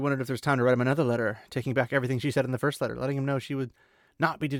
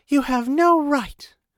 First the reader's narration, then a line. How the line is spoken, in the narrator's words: began in a breathless voice